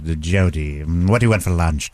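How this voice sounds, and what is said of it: Imitates Dr. Lecter character voice. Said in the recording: “doing his voices ... Jodie Foster's and Dr. Lecter ... Hear Dr. Lecter?”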